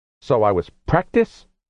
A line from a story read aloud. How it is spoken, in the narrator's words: Rose snarled